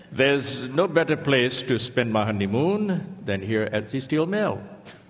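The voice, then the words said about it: Put-on foreign accent. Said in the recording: “as was obvious from ... accent”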